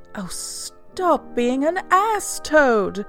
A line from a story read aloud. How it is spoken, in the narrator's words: cried the mole despairingly